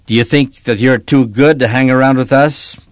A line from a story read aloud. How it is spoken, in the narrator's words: Tanner growled